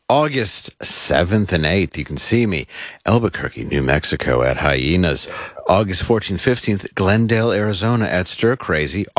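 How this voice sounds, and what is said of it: Smooth announcer-style radio voice. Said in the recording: “I just like how you get smooth when you do these ... I read it in my very radio voice.”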